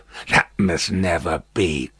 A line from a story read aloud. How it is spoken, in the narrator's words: croaked Jacques Three